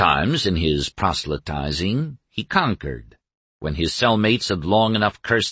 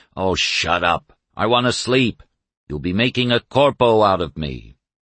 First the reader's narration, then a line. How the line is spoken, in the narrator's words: all the other five had growled